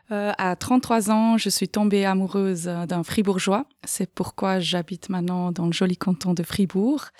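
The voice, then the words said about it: Slight Swiss German accent in French. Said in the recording (French): “Je suis d'origine de l'Argovie, comme on peut peut-être entendre un petit peu avec mon accent.”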